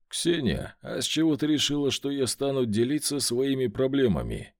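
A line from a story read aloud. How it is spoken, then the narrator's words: Soft question. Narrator (Russian): Мягко спросил я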